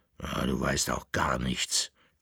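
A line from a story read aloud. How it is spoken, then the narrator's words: Dog's growl. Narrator (German): knurrte der Bauernhund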